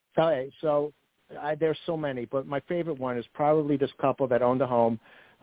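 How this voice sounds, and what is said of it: Brooklyn accent. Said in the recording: “Hear my accent... My accent... I'm from Brooklyn”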